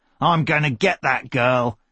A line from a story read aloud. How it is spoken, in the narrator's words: he growled